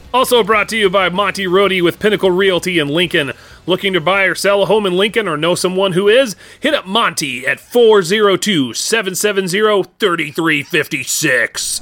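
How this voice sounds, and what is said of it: Exaggerated radio announcer voice. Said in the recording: “You're really leaning into that radio voice today”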